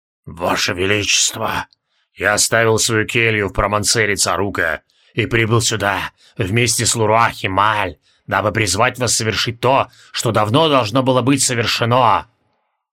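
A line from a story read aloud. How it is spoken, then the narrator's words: Furious hoarse hiss. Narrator (Russian): Яростно просипел Тивилдорм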